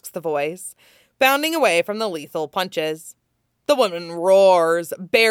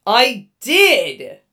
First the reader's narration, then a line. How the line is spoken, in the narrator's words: the voice insists, growling over the sound of gunfire